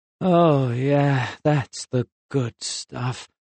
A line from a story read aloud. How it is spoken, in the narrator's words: he moaned softly